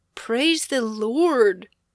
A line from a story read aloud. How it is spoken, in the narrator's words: exclaimed